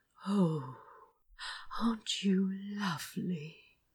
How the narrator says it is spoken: He whispered

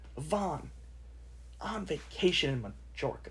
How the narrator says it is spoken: snapped Aunt Petunia

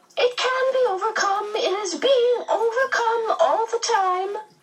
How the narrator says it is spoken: the medium cried, smiling happily

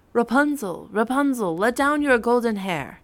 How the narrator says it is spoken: he cried

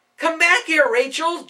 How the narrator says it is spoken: Jude yelled

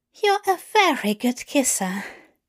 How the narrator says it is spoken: Aziraphale said breathlessly

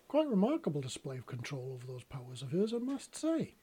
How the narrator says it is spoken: Wisp said with a chuckle

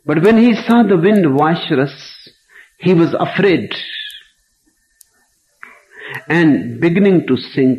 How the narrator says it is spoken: he cried, saying

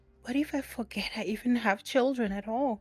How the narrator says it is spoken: Chloe whispers

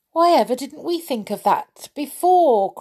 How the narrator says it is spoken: cried Joe

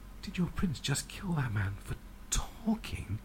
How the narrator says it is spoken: Sarah whispers, fighting terror

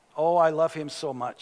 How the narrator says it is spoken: she said

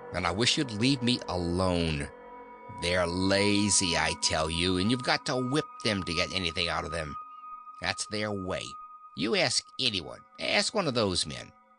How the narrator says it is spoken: her brother sneered

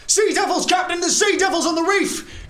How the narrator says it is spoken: one of the crew shouts out

